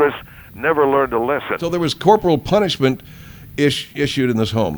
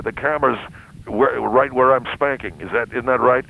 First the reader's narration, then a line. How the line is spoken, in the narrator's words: his father, Duvet, would say